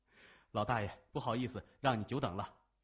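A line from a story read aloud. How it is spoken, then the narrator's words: Respectful. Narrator (Chinese): 谢文东恭敬地说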